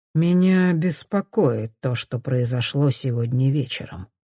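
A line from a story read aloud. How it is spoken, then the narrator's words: Plain. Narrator (Russian): говорит капитан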